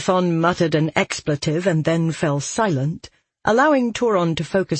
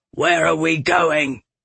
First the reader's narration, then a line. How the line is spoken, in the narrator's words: Galathon growled